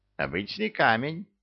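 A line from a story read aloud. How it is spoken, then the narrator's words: Scoffing grunt. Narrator (Russian): Хмыкнул он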